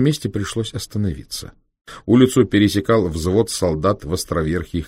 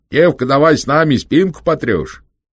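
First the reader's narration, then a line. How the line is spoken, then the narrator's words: Soldiers shouting. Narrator (Russian): Солдаты кричали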